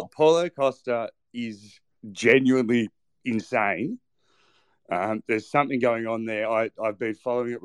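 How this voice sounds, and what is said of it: Australian accent. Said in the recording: “Maybe I'm biased because I'm Australian ... coming from a guy with your accent”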